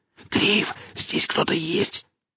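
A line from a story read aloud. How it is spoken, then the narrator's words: Whisper turning to whimper. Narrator (Russian): шепот перешел на жалобное подвывание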